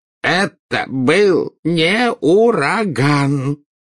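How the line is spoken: Unhappy voice. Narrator (Russian): проговорил Фадж несчастным голосом

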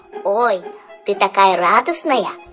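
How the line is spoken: Squeaky voice. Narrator (Russian): пропищал Жак

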